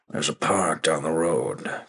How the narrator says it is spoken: Kent grumbled

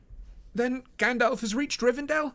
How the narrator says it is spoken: cried Frodo joyfully

